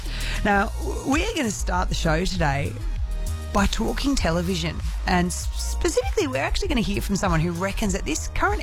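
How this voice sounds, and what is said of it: Husky, strained voice. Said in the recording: “my voice might be a little bit husky. I'm starting to lose it”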